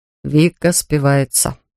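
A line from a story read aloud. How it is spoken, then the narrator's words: Gloomy. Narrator (Russian): мрачно сказал он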